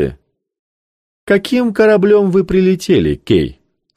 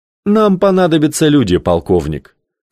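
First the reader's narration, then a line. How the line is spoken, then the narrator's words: Calm reply. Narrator (Russian): спокойно ответил Кей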